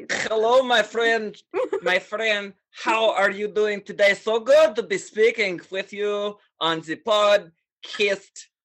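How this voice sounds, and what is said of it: Put-on Russian-Swedish accent. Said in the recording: “I recall a Russian accent, perhaps. ... It's going a little Swedish these days.”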